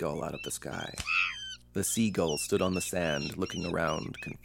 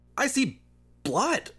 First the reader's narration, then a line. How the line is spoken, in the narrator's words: he shouted